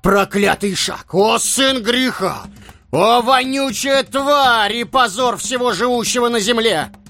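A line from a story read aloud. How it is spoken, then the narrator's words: Shouting. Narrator (Russian): кричал Хаджа Насреддин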